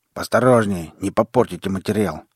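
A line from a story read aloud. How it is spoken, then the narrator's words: Curt, clipped remark. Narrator (Russian): отрывисто бросил выдра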